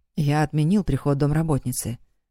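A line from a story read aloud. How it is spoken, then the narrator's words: Deliberately calm. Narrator (Russian): нарочито спокойно отозвался Николас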